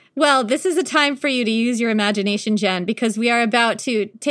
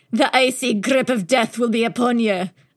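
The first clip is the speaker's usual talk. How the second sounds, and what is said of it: Bad put-on Scottish accent. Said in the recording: “I don't know why I said that in a Scottish accent ... my very bad Scottish accent”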